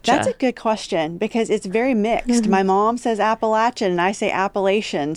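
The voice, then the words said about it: West Virginia Appalachian accent. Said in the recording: “I am from West Virginia, which I think is very noticeable from the accent. I'm from Appalachia area”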